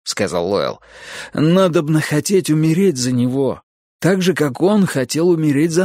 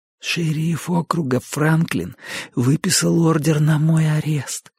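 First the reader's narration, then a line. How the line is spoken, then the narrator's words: Whispered in ear. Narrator (Russian): прошептал он Юджину на ухо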